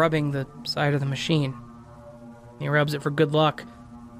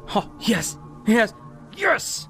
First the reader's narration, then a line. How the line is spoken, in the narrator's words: he yells